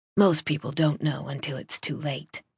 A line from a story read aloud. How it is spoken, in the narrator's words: she said, her voice dropping to a husky whisper